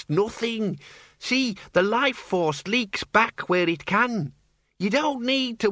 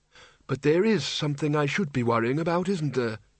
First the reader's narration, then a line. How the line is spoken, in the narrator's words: he said flatly